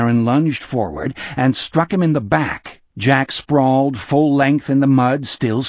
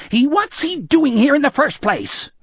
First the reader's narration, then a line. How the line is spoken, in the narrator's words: Osmond shrieked